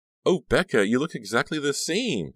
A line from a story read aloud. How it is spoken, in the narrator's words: the girl cried